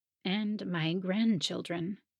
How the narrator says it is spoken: Hilda murmured

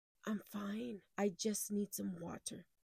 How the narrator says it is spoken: with my shaking cup in hand, I whispered

